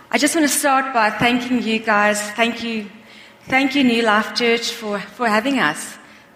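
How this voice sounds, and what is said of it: Non-native English accent. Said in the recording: “I hope you understand my fluent English. ... My accent is not always the same as yours.”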